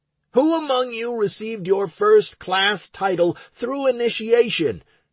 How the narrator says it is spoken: I yelled

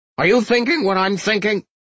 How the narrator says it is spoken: Arvel blurted, looking horrified

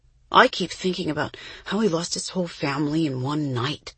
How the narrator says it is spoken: Jessie murmured from her burrow beneath the blankets

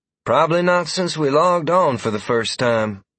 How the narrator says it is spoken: Freya said wistfully

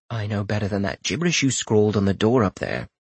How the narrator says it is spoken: Rorik said, infusing his voice with a lightness he didn't feel

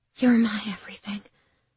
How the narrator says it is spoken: managed to whisper

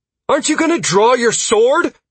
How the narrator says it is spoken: Sierra shouted at me

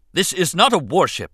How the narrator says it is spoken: Captain Panaka snapped, looking angry and betrayed

